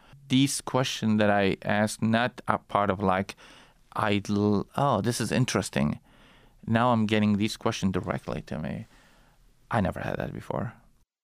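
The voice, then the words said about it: Iraqi-accented English. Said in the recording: “my accent ... I'm Iraqi”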